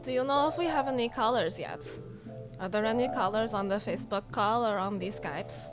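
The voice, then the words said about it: Slovenian accent in English. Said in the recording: “She's got an accent. She's from Slovenia.”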